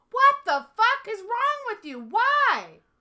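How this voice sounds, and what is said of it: Yelling angrily. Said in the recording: “Why are you yelling”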